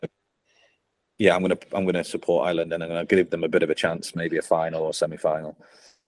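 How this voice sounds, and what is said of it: Irish accent. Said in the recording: “obviously you can tell by my Irish accent, right?”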